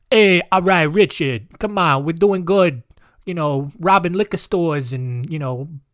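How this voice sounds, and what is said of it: Bad put-on New York accent. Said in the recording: “That's that's a bad New York accent.”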